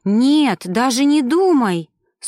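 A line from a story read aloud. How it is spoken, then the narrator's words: Horrified exclamation. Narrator (Russian): с ужасом воскликнула блондинка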